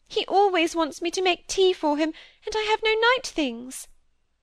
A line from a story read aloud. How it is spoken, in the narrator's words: sobbed out